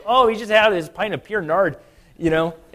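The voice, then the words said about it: Put-on North Dakota accent. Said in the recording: “this North Dakota accent of saying pure nard ... somebody from like Michigan or North Dakota”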